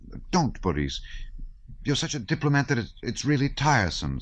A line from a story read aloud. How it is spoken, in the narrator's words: said in a mortified voice that trembled slightly